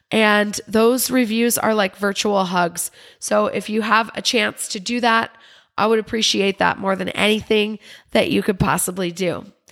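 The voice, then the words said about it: Slightly raspy voice. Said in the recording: “my voice is a little raspy ... I just have a little cold”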